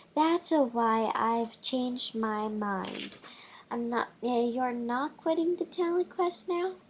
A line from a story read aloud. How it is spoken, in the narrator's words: Hugo asks